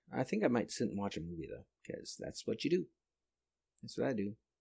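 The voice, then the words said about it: Tired, low-energy voice. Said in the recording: “you can probably tell from my voice, I don't have much energy right now... I'm tired”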